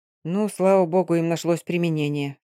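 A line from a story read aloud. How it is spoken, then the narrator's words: Through gritted teeth. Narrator (Russian): сквозь зубы произнес Овалов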